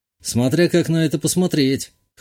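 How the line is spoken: Snorting. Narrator (Russian): хмыкнул

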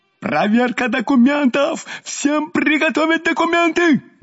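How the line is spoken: Frantic yelling. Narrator (Russian): Неистово орал наш прежде добродушный участковый

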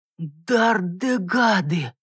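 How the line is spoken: Shocked hoarse wheeze. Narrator (Russian): потрясенно просипел Бойд

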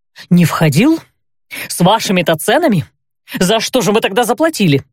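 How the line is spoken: Angry exhale. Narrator (Russian): зло выдохнул господин Дастин

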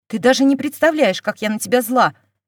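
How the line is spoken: Angry bark. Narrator (Russian): рявкнула Динара

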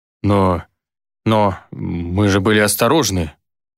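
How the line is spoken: Mumbling. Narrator (Russian): промямлил

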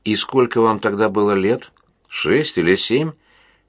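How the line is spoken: Innocent tone. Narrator (Russian): поинтересовалась она невиннейшим тоном

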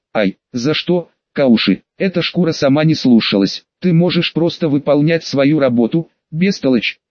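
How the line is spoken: Level voice through teeth. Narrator (Russian): процедил длинноволосый, при этом не повысив тон на товарища

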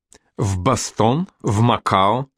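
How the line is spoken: Plain. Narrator (Russian): спросил он

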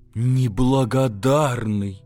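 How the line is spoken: Affected drawl. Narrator (Russian): манерно протянул Матушкин

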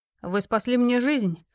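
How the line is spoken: Matter-of-fact tone. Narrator (Russian): вымолвил будничным тоном

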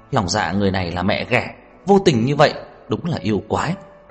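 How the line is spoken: Angry trembling voices. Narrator (Vietnamese): Bọn Lâm Sở Nhai tức giận run rẩy nói

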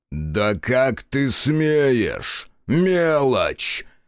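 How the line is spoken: Roar. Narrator (Russian): мужик взревел

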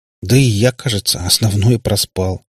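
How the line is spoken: Sighing. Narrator (Russian): вздохнул Лешка

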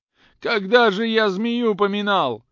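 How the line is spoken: Sobbing. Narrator (Russian): говорил среди рыданий

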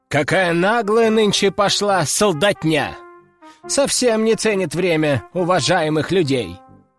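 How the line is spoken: Deliberately loud. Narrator (Russian): нарочито громко проговорил какой-то самоубийца

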